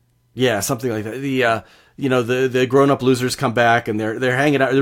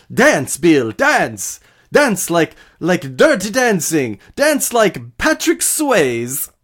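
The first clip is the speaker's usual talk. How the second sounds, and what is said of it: Rough impression of Andy Muschietti. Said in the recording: “I'm doing a bad impression of Bill doing a bad impression, or a pretty good impression of Andy Muschietti”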